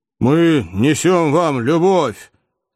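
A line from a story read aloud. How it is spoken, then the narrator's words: Growled. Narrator (Russian): прорычал бывший подъясаул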